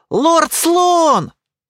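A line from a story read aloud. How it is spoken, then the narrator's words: Immediate shout. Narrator (Russian): тут же закричала Эрза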